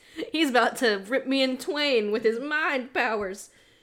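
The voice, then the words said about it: Soldier character in southern accent. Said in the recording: “I gave the shoe her good brainwash soldier a southern accent”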